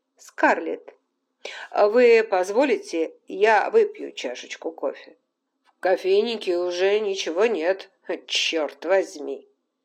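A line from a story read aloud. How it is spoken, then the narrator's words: Laughing. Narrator (Russian): Смеявшийся Фентон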